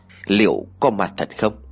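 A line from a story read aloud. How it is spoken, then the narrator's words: Wondering aloud. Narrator (Vietnamese): Thuật tự hỏi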